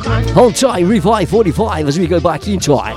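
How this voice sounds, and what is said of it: Radio DJ announcer voice. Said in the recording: “Shall put my DJ voice on.”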